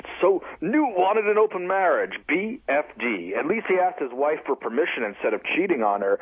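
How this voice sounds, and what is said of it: Rush Limbaugh impression. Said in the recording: “can do my Limbaugh voice”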